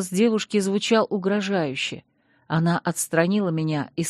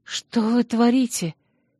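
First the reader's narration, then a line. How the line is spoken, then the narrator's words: Frightened. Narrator (Russian): испуганно проговорила я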